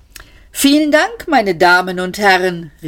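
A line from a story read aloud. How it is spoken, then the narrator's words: Man calling out. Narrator (German): rief der Mann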